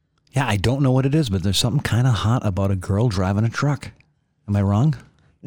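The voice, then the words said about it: Whispering. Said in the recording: “I don't know why I'm whispering. I'm pretty sure everybody can hear me.”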